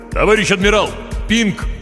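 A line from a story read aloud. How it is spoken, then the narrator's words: Mental shout. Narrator (Russian): мысленно крикнул Хор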